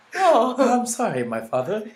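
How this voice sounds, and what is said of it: Put-on British accent. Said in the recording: “Where y'all get this British accent?”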